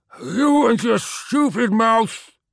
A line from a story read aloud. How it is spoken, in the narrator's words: said Rackwolf, his words distorted and slurred by the gaping wound in the side of his face